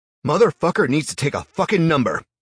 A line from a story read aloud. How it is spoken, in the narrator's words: shouted